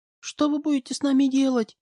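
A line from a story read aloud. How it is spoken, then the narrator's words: Trembling question, young woman. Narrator (Russian): Дрожащим голосом спросила у меня девушка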